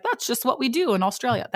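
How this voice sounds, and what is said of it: Poor put-on Australian accent. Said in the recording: “That's a horrible Australian accent.”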